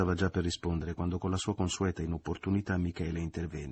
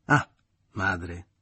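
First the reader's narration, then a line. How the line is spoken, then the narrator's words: Mocking exclamation. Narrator (Italian): esclamò parodiando le parole che Maria Grazia aveva proferito prima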